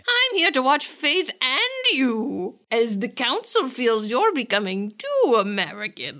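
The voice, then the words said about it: Put-on British accent, witchy. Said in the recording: “Are you doing a British accent, or are you being a witch? ... A little of both. ... It's very difficult to tell what you're going for.”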